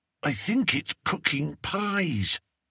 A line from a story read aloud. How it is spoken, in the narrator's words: whispered Roderick